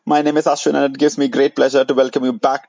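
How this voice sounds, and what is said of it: Indian accent. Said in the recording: “in an Indian accent”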